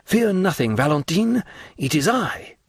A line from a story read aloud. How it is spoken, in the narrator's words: Pressing his lips close to the envious planks that prevented his further progress, he exclaimed